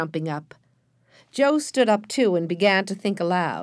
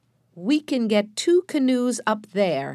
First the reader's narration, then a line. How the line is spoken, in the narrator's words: he said slowly